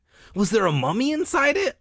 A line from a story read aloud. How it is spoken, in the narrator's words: I asked eagerly